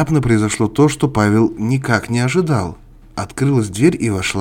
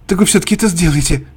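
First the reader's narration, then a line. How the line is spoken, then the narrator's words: Exclamation. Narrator (Russian): воскликнул Павел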